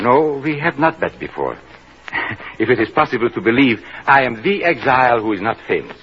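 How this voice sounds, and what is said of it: Hard-to-place European, possibly German accent. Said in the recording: “I always have a good ear for the accents of your country, but yours is most difficult to place. Is it Asuf German? ... it is difficult to place my accent”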